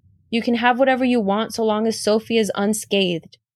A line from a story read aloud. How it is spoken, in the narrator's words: Blake said